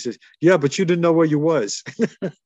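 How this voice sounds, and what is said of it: Broken Italian accent. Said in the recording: “in a broken Italian accent.”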